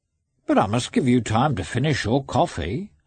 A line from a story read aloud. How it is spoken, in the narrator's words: answered Matvey in his friendly, rude tone, with which it was impossible to be angry